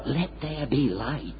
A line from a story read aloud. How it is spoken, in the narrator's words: God didn't whisper